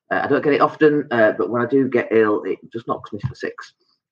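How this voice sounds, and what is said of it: Sick, slightly altered voice. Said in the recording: “my voice is a little bit different, and I've got this dreadful cough, a tightness in my chest”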